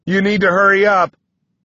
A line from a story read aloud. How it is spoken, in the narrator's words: I shout at Six through gritted teeth